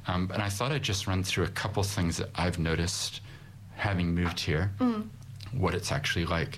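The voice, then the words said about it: Non-native accent. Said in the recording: “People hear my accent, so you probably can tell I'm from somewhere else originally”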